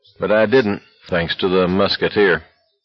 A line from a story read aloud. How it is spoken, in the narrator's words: McVree's said sullenly